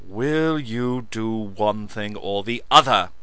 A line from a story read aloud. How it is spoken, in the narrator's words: Lance spat